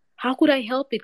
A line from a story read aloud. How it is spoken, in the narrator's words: cried Hasibo